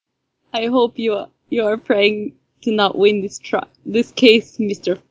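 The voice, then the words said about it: Put-on Russian accent. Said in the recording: “had a Russian accent”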